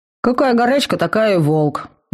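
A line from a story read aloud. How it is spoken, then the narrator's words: Displeased grumble. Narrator (Russian): недовольно проворчал староста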